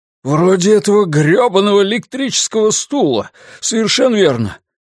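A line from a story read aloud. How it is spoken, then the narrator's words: Exclaimed in righteous anger. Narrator (Russian): воскликнул Ллойд, охваченный праведным гневом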